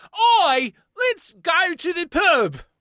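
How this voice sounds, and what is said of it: American doing a British accent. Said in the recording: “let's do our best attempt at an accent from our rival nation. U.S., you'll do U.K. ... this is just the one that I slip into”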